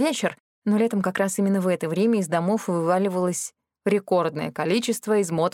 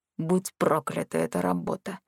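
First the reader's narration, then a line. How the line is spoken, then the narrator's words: Barely audible muttering. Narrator (Russian): еле слышно пробормотал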